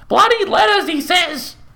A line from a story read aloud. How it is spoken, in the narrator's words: she yelled over her shoulder